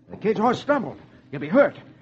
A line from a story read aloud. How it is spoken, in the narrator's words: Roy exclaims